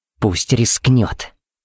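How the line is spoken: Hissed. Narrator (Russian): прошипела Пепси

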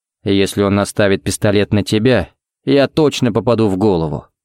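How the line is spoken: Grim joke. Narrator (Russian): мрачно пошутил Харри

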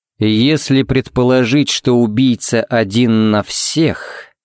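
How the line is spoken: Drawn-out, thoughtful. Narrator (Russian): протянул Харри задумчиво

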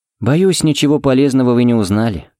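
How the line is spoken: Sighing. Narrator (Russian): вздохнул Фернандес

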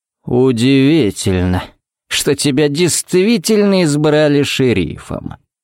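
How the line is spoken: Drawl. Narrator (Russian): протянул он

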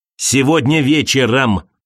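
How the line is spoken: Bark. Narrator (Russian): рявкнул Крейг в экран

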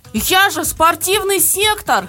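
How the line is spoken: Yell. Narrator (Russian): завопил

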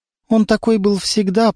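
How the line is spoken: Trembling voice. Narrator (Russian): проговорила она дрожащим голосом

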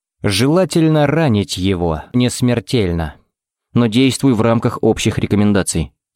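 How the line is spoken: Plain. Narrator (Russian): сказал Феникс

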